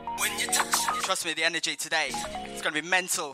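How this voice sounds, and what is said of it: Birmingham English accent. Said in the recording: “Excuse the Birmingham accent. ... I just sound like a chav.”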